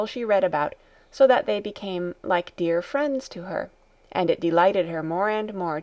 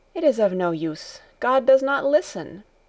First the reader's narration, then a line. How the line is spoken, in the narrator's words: Heidi went on, in an agitated voice